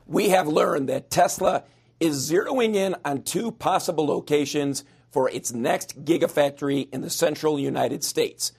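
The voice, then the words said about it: Strained, fading voice. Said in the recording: “I am losing my voice”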